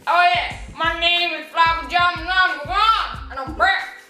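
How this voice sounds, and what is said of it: Put-on Australian accent. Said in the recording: “My Aussie accent.”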